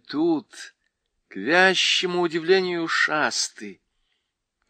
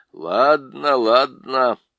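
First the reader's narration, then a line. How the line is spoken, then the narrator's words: Grumbling. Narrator (Russian): проворчал Лум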